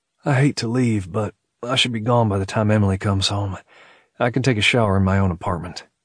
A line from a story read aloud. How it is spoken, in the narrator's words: He sighed, adding